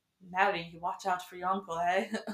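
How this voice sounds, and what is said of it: Put-on proper northern British accent. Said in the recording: “like she was very proper, but like it was just it was more than just like a little British accent. Is it like northern? northern maybe ... how bad your accent?”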